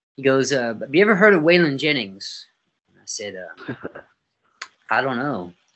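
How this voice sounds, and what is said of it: Non-native English accent. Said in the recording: “I had broken English back then. I still got the accent, but I do a little better now.”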